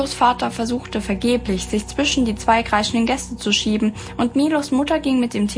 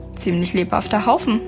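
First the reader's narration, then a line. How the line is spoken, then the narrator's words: Murmur. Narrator (German): murmelte sie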